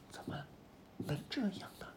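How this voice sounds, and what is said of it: Quiet, softly spoken line. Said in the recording (Chinese): “她忍不住小声的说”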